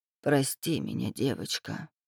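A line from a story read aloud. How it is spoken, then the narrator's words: Barely audible. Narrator (Russian): проговорила она еле слышно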